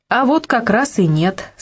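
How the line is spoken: Plain. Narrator (Russian): сказала Зоя

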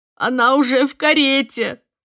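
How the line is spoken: Sobbing. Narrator (Russian): рыдала Бидди

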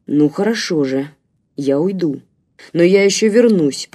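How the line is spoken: Through gritted teeth. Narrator (Russian): процедил Рваный

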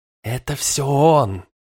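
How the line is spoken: Unctuous rustling whisper. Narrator (Russian): Прошелестел елейный шепот

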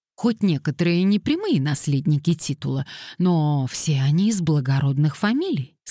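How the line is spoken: Plain. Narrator (Russian): сказала она

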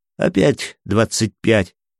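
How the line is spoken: Laughing. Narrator (Russian): рассмеялась Мила

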